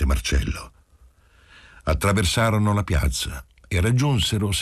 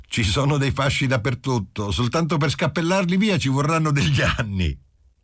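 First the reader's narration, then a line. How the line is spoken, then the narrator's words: Laughing. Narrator (Italian): Qualcuno disse a Marcello, ridendo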